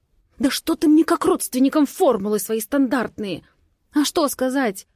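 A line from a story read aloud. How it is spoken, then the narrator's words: Nervous hiss. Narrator (Russian): Срываюсь на нервное шипение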